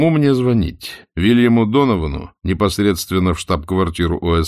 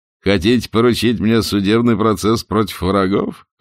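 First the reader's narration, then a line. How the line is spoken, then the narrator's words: Laughing quip. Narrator (Russian): хохотнул Даллес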